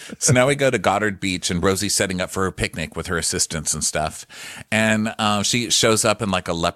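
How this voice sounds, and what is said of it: Usual voice. Nothing is said of it.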